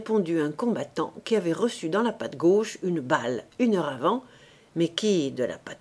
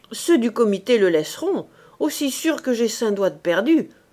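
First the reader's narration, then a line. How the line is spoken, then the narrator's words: Wounded man growling. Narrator (French): a grogné le blessé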